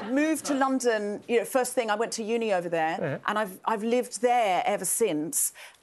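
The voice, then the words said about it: English accent. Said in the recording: “I know I sound English ... I picked up the accent from the books”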